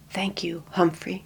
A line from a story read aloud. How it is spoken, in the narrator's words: quietly said